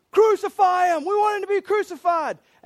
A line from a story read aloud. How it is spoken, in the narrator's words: All the people are screaming